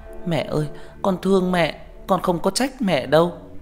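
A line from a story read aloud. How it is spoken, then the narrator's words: Tearful, whimpering. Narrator (Vietnamese): mếu máo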